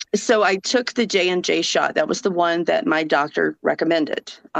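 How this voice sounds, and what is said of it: Southern US accent. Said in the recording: “Even with a southern accent,... I'm from Georgia”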